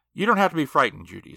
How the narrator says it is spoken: said the man

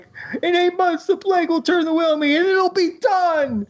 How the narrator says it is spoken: he whines incessantly

